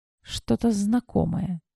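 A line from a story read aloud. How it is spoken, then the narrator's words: Quiet. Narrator (Russian): тихо произнесла я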